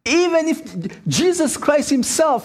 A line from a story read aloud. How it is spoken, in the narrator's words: he cried